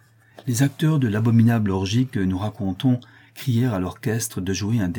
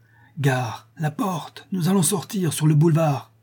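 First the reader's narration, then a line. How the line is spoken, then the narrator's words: Breathless shout. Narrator (French): Le squelette cria d'une voix haletante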